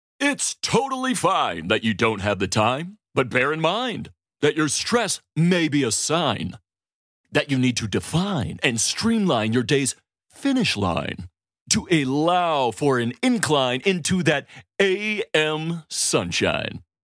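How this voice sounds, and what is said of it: Over-the-top announcer voice. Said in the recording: “a terrible, awful announcer voice”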